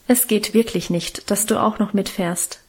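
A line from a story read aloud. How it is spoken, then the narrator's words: Plain. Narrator (German): sagte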